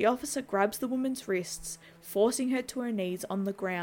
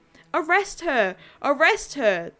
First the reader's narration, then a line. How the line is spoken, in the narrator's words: the officer yells out to his partner